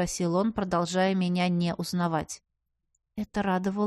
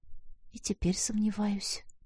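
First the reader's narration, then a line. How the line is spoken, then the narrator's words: Quiet mumble. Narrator (Russian): пробормотала тихо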